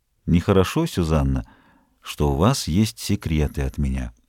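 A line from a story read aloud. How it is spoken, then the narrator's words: Sudden quiet. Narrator (Russian): Вдруг он тихо сказал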